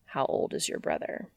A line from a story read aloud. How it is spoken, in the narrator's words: Dean sighs